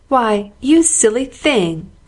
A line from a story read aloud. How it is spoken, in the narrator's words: cried the outraged Amy